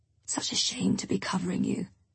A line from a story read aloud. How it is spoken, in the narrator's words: she mumbles